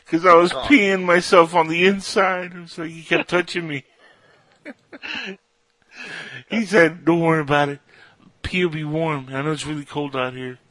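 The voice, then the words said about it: Bad imitation of another person's voice. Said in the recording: “my best Kevin Smith impression, by the way. That's really bad... Kevin Spacey”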